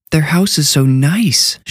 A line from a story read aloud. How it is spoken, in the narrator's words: she gasped